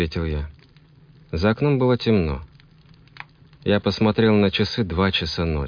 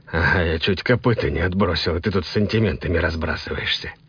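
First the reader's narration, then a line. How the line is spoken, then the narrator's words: Grumbling. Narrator (Russian): проворчал я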